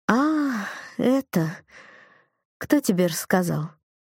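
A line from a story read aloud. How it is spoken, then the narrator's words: Disappointed drawl. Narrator (Russian): Она как-то разочарованно протянула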